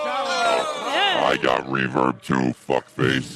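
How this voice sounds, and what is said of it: Robotic processed voice effect. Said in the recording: “My robot voice is better than your reverb.”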